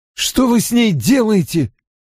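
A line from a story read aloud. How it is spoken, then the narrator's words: Alarmed outcry. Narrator (Russian): выкрикнула Мин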